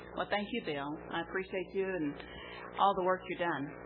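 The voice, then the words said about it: Texas accent. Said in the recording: “That Texas accent is down home to me”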